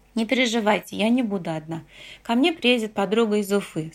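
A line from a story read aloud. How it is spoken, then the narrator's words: Plain. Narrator (Russian): сказала я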